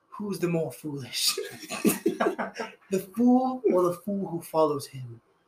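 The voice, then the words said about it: Imitated movie character accent. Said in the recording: “I have no idea how to say this in that guy's accent.”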